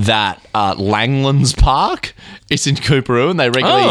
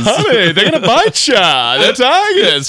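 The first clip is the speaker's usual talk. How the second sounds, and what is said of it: Bad camp impression of another person. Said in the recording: “worst ever Joe Exotic impression... a camp guy who likes lions”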